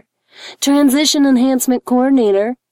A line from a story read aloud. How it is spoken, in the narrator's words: he said cheerfully into the receiver